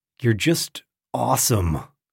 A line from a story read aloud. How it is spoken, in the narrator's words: Johnson and couldn't think of what to say to him, and so muttered